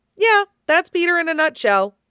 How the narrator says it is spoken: Stiles says cheerfully

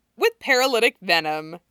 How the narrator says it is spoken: Allison adds cheerfully

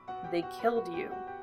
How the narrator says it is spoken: Ed said quietly

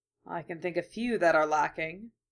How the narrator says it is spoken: muttered Hideyoshi

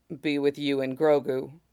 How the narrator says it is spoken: said, softly but firmly

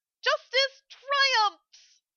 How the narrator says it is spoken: Amelia cried

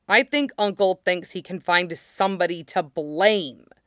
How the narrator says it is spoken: Zuko snarled

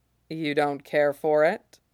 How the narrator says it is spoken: she asks

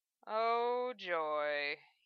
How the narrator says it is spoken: he sighed

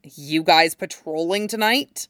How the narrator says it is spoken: he asked tightly

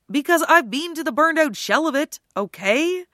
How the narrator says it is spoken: Styles snapped

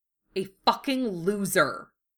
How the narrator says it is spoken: Kaiba snarled

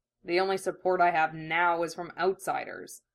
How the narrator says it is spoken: Sasuke pointed out a bit dryly

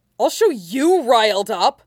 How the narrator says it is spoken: he shouted automatically

